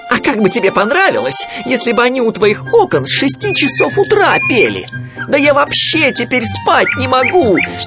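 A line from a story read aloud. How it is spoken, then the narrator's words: Shrill yelling. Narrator (Russian): вопил он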